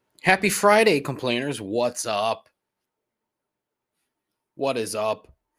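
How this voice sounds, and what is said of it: Poor Jim Rome impression. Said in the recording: “terrible Jim Rome impression”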